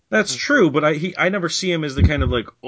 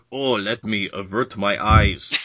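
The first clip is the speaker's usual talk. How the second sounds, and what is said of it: Put-on Russian accent. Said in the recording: “that's my Russian accent. ... That was great.”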